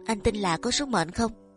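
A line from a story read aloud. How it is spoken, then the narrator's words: Soft question. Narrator (Vietnamese): Phương Vi khẽ hỏi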